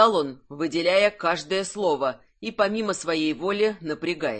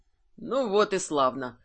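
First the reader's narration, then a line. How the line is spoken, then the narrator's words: Mutter. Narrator (Russian): пробормотал Кирсан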